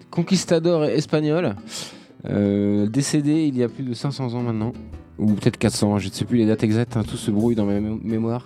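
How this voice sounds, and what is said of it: Put-on character accent. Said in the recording (French): “C'est à cause de l'accent.”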